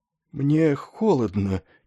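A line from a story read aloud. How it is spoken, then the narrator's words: Faint exhausted complaint. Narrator (Russian): чуть слышно жаловался Снегги измученным голосом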